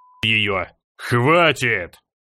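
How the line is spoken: Near roar. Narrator (Russian): Чуть ли не проревел Грознов

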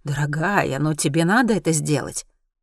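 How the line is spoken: Gentle. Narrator (Russian): Вам мягко скажут

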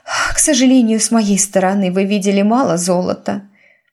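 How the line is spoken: Sighing. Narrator (Russian): вздохнула герцогиня

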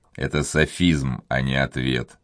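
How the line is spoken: Dry tone. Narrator (Russian): сухо произнес Монбар

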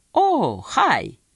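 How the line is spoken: Americanized exclamation. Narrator (Russian): воскликнула Хиллари, которая обзавелась странной привычкой слегка американизировать свою речь

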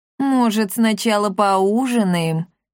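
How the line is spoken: Cat's plaintive drawl. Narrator (Russian): жалобно протянул кот

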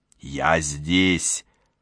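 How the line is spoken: Hissed. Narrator (Russian): прошипел он

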